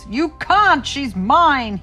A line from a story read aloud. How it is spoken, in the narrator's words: he roared